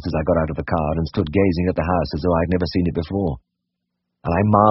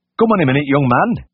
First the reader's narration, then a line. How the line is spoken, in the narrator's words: cried